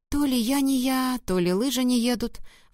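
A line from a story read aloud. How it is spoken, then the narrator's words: Sighing. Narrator (Russian): вздохнула Поля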